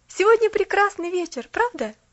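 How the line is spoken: Forced cheerful. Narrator (Russian): вслух Поллианна весело сказала

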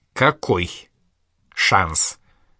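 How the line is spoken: Slow, deliberate speech. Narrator (Russian): Инга говорила раздельно и медленно

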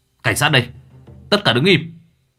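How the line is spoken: Shouting. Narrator (Vietnamese): miệng hét

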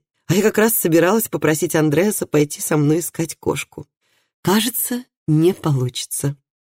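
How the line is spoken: Laughing. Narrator (Russian): засмеялась Хильди

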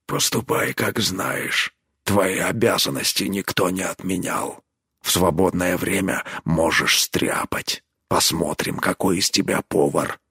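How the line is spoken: Quiet reply. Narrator (Russian): Тот тихо ему ответил

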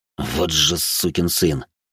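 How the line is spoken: Angry hiss through teeth. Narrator (Russian): сквозь зубы процедил лекарь

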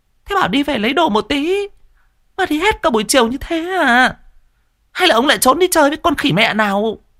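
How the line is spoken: Shrill shriek. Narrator (Vietnamese): mụ đã rít lên

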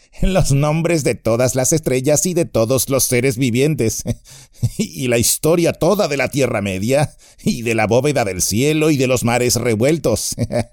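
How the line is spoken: Laughing. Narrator (Spanish): rió Pippin

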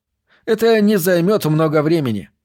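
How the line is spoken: Cheerful young man. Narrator (Russian): бодро сказал молодой человек

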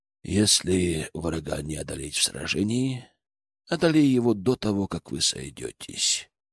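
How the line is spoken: Thoughtful voice. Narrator (Russian): задумчивым голосом произнес Изаму

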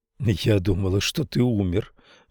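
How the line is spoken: Breathless exhale. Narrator (Russian): выдохнула Ленора

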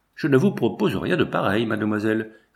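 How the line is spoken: Cold reply. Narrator (French): répondit-il froidement

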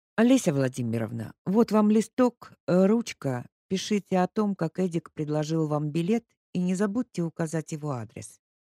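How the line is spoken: Plain. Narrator (Russian): сказал Максим Григорьевич

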